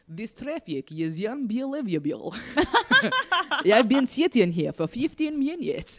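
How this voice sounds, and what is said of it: Put-on Russian accent. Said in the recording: “For Russians, you put a Y after every syllable... it's the only two sentences I can say in a Russian accent”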